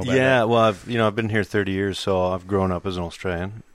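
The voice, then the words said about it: American accent. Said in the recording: “I know my accent might sound a little bit funny... what part of Canada are you from?... it's not Canadian. It's American.”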